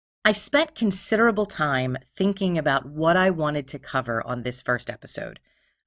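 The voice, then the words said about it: Philadelphia accent, pitchy voice. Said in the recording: “my voice is pitchy ... I really do have a Philadelphia accent”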